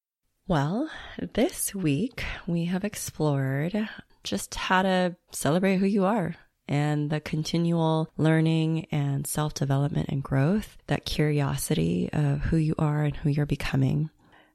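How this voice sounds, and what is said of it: Congested voice from a cold. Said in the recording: “My voice sounds a little bit funny because I caught a cold this weekend.”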